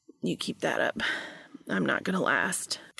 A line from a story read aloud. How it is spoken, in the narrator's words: Cass confessed